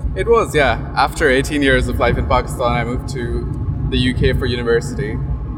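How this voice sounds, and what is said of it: American accent. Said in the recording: “picked up the American accent within just two years of being there”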